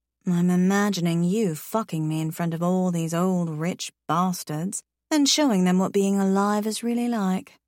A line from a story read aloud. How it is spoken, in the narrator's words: I purr into his ear